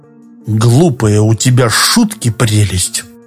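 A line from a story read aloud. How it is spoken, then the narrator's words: Grumbling. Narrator (Russian): буркнул Шорохов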